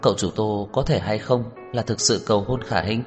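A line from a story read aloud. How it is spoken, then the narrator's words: Worried low voice. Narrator (Vietnamese): Nhã Tuệ lo lắng, nhỏ giọng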